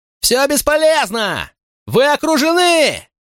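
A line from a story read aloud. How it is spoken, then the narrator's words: Even louder yell. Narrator (Russian): Еще громче заорал шериф Чалфант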